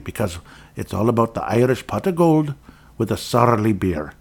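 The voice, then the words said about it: Attempted Irish accent. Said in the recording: “my Irish accent there. I'm attempting to do a good one”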